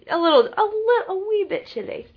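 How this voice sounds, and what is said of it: Put-on British accent. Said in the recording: “with my British accent.”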